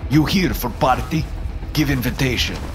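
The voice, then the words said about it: Eastern European accent. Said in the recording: “with a solid Eastern European accent”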